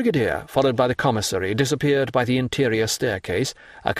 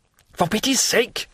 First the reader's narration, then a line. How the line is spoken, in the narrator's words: he cried, pale and bewildered